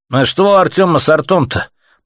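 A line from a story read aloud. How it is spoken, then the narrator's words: Grumbling from crowd. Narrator (Russian): пробурчали из толпы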